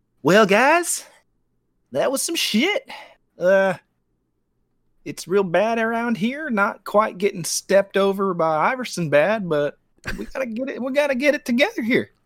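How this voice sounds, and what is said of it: Put-on country accent. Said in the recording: “have a country accent? Does he have a country accent? ... he sounds like the KFC colonel.”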